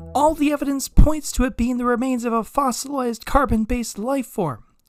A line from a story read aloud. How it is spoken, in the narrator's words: Olivia shouted, exasperated at what had now become a 2-hour debriefing upon her return